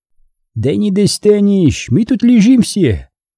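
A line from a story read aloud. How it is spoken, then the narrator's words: Cheerful shout. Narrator (Russian): весело крикнул Абай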